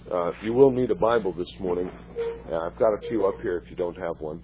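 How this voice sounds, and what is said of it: Strained, failing hoarse voice. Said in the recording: “My voice is going”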